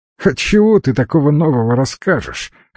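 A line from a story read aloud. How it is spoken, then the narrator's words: Wry snort, fox. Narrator (Russian): хмыкнул лис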